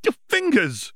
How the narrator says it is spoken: Hermione cried out

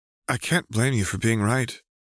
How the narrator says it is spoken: Jade said, smiling sadly

